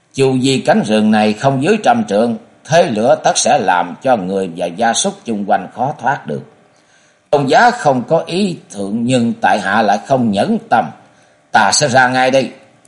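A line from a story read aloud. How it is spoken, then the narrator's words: Hearty laughing voice. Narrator (Vietnamese): Trần Phương lại cười lớn sang sảng và nói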